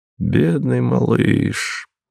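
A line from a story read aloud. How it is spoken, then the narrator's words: Muttered. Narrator (Russian): бормотал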